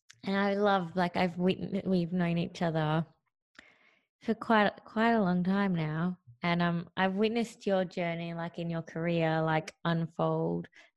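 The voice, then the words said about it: Hoarse, throaty voice. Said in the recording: “I've got a frog in my throat.”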